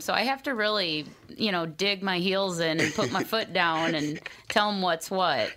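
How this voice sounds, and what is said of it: Minnesota accent. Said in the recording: “She got that Minnesota accent.”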